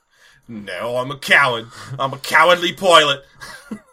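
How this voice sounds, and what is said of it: Put-on Australian-sounding accent. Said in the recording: “he's apparently turned Australian ... Because I can't do British accents.”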